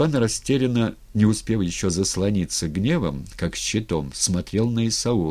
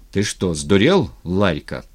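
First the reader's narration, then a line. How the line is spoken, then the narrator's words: Plain. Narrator (Russian): спросил он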